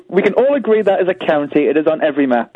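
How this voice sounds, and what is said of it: Northern English accent. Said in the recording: “you have a northern accent”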